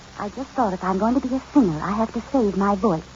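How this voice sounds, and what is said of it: Whispering. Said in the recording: “What are you whispering about?”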